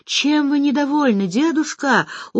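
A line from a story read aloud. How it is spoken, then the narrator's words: Dejected child's question. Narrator (Russian): упавшим голосом спрашивает внучка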